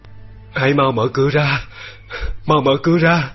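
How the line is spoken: Delirious old man moaning. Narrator (Vietnamese): cụ cố hôn mê, trong lúc mơ màng, ông thường rên rỉ gọi tên tôi và bảo

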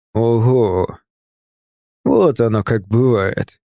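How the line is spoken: Drawling. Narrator (Russian): протянул он

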